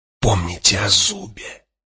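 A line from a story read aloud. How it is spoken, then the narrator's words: Hiss. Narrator (Russian): прошипел Юэ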